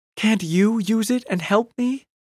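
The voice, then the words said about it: Small, pleading voice. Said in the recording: “Polly pleaded in a small voice.”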